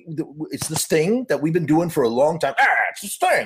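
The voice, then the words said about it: Imitates another person's voice. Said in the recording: “doing the Jerry voice ... Jerry's always like chewing gum in the interviews. He's like smacking the gum as he talks.”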